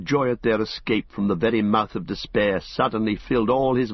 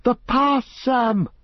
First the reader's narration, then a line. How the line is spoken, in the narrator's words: he cried, not heeding the shrillness of his voice, that released from the choking airs of the tunnel rang out now high and wild